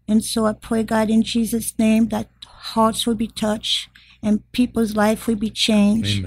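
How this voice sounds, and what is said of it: Speaks with a noticeable accent. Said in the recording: “that accent”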